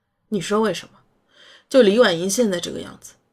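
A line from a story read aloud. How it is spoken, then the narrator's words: Aunt, long sigh. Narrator (Chinese): 姨妈长叹一口气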